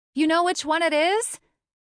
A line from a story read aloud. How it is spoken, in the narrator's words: I shout over the noise